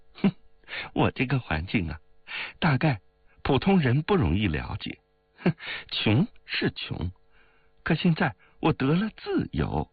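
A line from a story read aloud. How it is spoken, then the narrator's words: Laughing. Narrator (Chinese): 王玉却向冰如笑道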